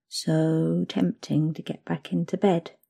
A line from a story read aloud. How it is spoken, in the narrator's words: you murmur